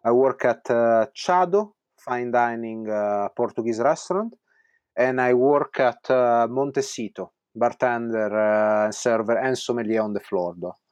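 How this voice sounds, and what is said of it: Italian accent. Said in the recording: “get more of that Italian accent”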